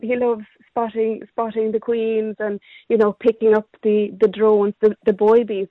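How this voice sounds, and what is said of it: Slight Cork Irish accent. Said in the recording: “You have the the most fabulous accent. You have acquired some Corkonian there, but not not too much.”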